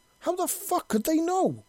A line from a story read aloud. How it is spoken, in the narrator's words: Lieutenant yelled